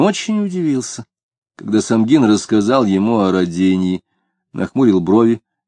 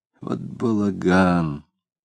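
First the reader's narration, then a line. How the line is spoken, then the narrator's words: Mutter. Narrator (Russian): Пробормотал он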